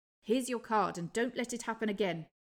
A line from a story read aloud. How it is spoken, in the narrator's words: he said curtly